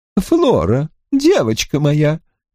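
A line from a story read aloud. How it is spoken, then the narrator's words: Slightly trembling voice. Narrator (Russian): обратилась она к племяннице слегка дрожащим голосом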